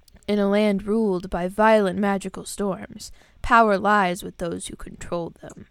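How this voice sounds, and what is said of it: Dramatic narrator voice. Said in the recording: “Let me get my dramatic voice on.”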